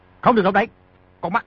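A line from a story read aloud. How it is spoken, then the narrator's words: Shouted. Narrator (Vietnamese): quát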